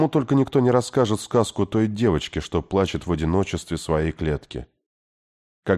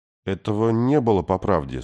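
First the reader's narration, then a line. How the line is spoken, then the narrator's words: Sleepy. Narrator (Russian): сонно сказал Артур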